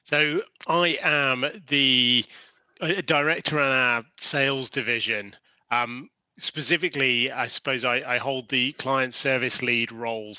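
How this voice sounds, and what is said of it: British accent. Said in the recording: “a little bit of a British accent ... British through and through ... the UK accent”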